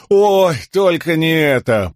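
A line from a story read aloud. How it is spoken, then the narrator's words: Groaned. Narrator (Russian): простонал Лопан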